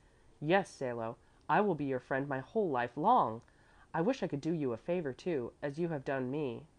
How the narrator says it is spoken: Bruno cried out with beaming eyes

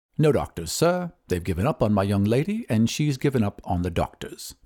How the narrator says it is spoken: continued the butler calmly

